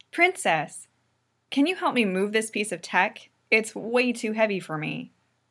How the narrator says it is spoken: Pidge says loudly

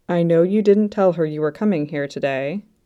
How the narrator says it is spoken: he said

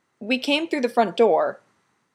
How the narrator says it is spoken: he announces suddenly, far too loudly

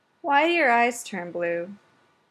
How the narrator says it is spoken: he asked sleepily

